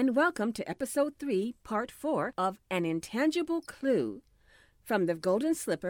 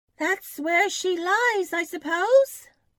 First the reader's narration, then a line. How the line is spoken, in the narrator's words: feelingly exclaimed